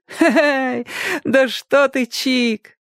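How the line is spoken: Laughing. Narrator (Russian): рассмеялась Ляля

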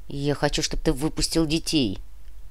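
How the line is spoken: Grumbling mutter. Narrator (Russian): буркнул Клим

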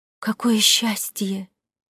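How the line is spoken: Whispered. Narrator (Russian): прошептала Матильда Пино

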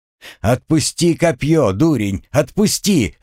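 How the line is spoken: Yelled. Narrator (Russian): заорал капрал

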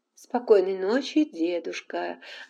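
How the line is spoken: Joyful. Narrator (Russian): радостно сказала она

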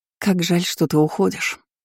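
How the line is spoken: Sad sigh. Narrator (Russian): печально вздохнула дочь императора

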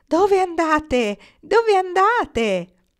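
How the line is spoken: Children shouting. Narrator (Italian): Una folla di bambini gridarono

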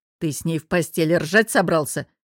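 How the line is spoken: Snorting. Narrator (Russian): хмыкнул

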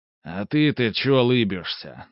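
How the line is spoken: Rude reply. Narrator (Russian): грубо ответил Каримов

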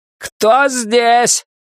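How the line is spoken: Child shouting. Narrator (Russian): прокричал малыш

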